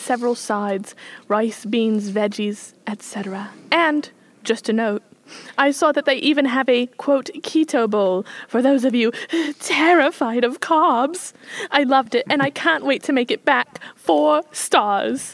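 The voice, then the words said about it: Put-on British accent. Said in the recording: “I liked the British accent.”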